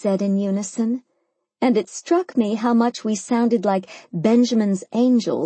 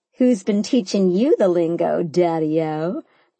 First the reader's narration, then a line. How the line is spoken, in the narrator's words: I laughed